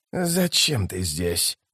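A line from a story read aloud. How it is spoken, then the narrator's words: Whisper. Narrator (Russian): прошептал он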